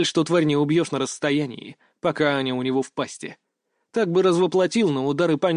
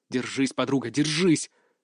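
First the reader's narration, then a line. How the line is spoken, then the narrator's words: Muttered. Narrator (Russian): пробормотал я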